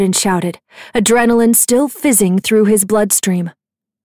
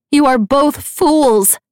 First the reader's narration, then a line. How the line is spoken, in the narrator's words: Nicasia shouted after them